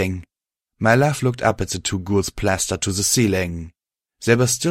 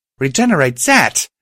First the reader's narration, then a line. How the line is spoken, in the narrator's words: She shouted